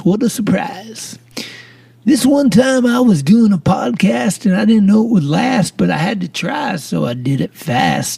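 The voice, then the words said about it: Put-on radio announcer voice. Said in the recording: “here's my radio voice”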